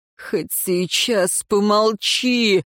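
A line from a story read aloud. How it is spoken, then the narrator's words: Groaning. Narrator (Russian): простонал он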